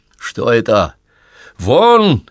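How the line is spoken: Shouted. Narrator (Russian): крикнул Зиновий Борисович на Сергея

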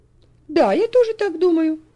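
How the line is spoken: Sincere exclamation. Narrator (Russian): воскликнула Софи искренне

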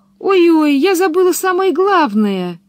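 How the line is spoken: Exclaimed. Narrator (Russian): воскликнула она

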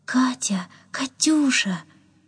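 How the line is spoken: Tender calling. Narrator (Russian): ласково звал

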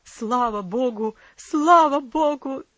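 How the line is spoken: Shouting, then loud sobbing. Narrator (Russian): закричал отец ... громко зарыдал

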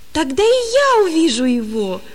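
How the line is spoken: Joyful exclamation. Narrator (Russian): воскликнул он радостно

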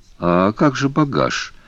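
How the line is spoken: Confused question. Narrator (Russian): спросил Пасспарту, растерянно

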